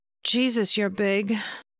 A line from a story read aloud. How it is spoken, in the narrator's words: she moaned